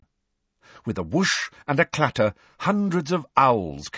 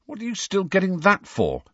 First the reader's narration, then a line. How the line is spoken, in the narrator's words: said Harry irritably